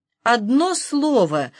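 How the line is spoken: Alarmed exclamation. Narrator (Russian): в тревоге воскликнул Хаджа Насреддин

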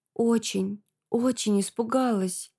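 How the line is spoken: Whisper. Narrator (Russian): шепнула я

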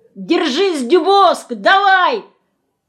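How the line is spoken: Shout. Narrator (Russian): Кто-то крикнул

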